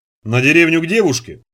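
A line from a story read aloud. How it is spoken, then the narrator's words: Snorting chuckle. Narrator (Russian): хмыкнул Парсыкин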